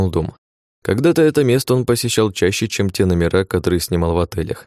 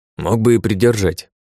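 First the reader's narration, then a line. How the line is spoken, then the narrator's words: Through gritted teeth. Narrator (Russian): процедил Грибовский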